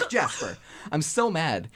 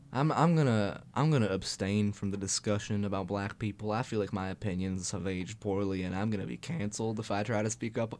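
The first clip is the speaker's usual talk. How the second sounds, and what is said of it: Imitated character voice, country accent. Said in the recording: “That's my Jasper impression. ... have, like, a country accent sometimes”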